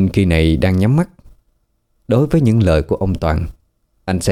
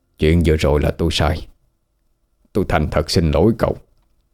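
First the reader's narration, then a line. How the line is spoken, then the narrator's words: Sigh, lowered voice. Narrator (Vietnamese): Ông khẽ thở hắt ra một cái rồi hạ giọng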